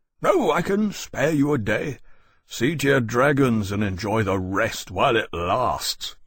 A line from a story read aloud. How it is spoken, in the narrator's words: Lenton said with a sharp, braying laugh